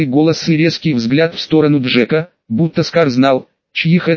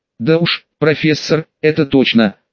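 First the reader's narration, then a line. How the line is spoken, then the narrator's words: Wry snort. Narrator (Russian): хмыкнул Джек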